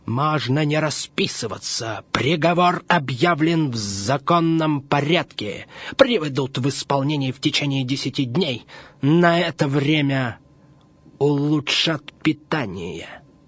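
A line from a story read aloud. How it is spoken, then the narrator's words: Deliberately loud. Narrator (Russian): Один из них нарочно громко говорит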